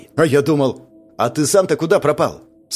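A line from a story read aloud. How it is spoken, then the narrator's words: Plain. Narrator (Russian): спросил Павел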